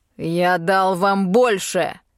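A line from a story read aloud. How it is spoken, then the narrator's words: Barking roar. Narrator (Russian): рявкнул дракон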